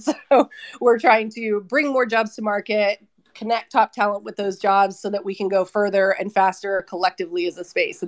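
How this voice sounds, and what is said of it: Voice affected by a cold. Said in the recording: “I have a little bit of a cold. I'm under the weather, so please excuse my voice”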